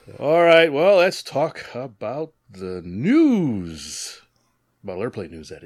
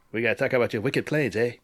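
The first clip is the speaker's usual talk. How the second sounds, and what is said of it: Poor put-on New England accent. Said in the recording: “What accent was that? ... It was a terrible New England accent”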